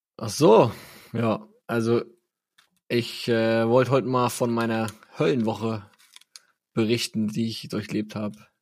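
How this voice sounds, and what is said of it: Hoarse, weak voice. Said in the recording (German): “Du klingst ein bisschen ab ... du klingst ein bisschen heißer ... Du, läufst quasi auf Sparflamme”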